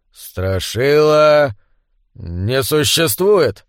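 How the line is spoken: Uncertain. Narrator (Russian): неуверенно сказал шериф Кэмп

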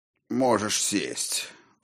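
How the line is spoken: Dry, curt. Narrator (Russian): Сухо сказал Динтра

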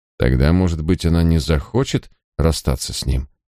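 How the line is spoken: Dry, smiling. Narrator (Russian): Я сухо улыбнулся

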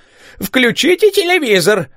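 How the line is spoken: Exclamation. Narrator (Russian): Мэри воскликнула

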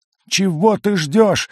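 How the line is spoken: Excited yell. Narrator (Russian): завопил на меня Кликли, возбужденно

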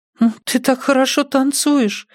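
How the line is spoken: Whimpering. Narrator (Russian): захныкала Аня

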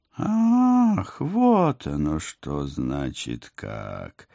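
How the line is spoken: Menacing drone. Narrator (Russian): Угрожающе прогудели из оконца

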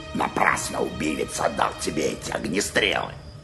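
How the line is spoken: Grumble. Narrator (Russian): пробурчал он

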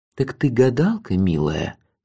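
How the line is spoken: Tender trembling whisper. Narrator (Russian): шепотом спросил я у самой крикливой из них, сам поражаясь нежному трепету своего голоса

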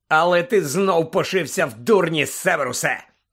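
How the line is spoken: Harsh bark. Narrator (Ukrainian): гаркнув Блек

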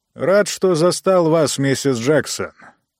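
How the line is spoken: Booming drone. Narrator (Russian): прогудел Ранситер

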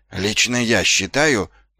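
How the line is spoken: Evasive mutter. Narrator (Russian): пробормотал он, избегая разгневанного взора госпожи Овниц

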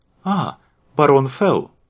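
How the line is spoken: Exclaiming. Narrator (Russian): воскликнул Торн

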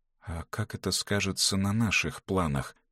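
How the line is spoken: Quiet question. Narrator (Russian): тихо спросила Эгле

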